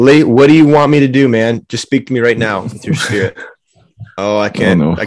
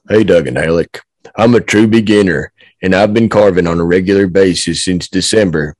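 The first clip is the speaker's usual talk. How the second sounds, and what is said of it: Deep, slow put-on Southern accent. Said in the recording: “It's going to be a Southern accent, but it's going to be like a deeper, more like slow, more arduous kind of man.”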